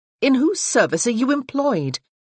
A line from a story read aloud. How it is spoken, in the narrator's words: Freya asked, her tone quelling